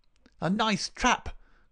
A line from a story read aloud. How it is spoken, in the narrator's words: cried the high, snarling voice